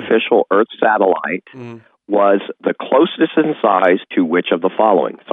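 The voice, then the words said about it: Hoarse, strained voice. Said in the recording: “I'm losing my voice”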